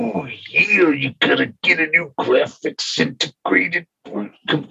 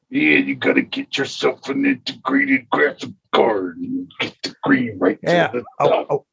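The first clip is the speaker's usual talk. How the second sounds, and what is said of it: Imitates another person's voice. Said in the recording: “Hulk Hogan and Macho Man as tech support guys ... you can do the fucking voice ... Macho Man tech support”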